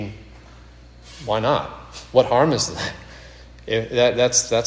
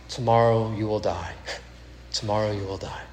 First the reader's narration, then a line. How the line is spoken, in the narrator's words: murmur softly